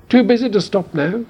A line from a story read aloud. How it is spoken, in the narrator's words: shouted the Mimble over her shoulder